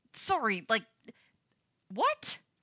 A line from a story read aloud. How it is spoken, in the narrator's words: sputters Lucas